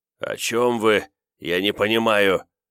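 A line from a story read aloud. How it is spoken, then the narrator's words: Strained, forced out. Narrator (Russian): выдавил я из себя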